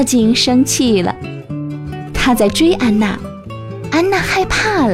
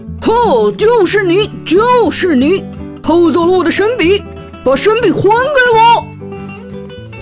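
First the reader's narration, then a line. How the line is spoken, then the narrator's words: Loud shout. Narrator (Chinese): 妖精大声喊起来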